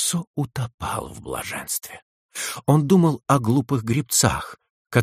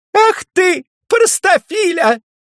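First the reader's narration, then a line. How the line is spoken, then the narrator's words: Shouted, breaking off singing. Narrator (Russian): она прервала пение и, посылая ему рукой воздушный поцелуй, крикнула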